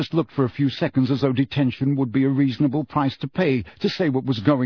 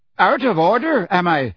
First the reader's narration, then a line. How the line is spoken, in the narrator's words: shouted Seamus, who was turning paler